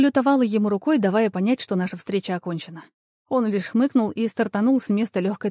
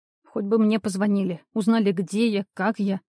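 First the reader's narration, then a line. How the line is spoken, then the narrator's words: Grumbling under breath. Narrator (Russian): пробурчала я себе под нос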